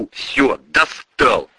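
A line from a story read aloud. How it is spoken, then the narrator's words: Growled. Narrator (Russian): прорычал прапор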